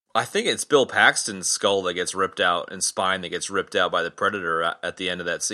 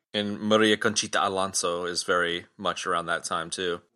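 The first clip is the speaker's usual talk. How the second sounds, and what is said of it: Spanish-accented pronunciation of a name. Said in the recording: “your pronunciation of her name with accent ... the half-assed attempt at my pronunciation”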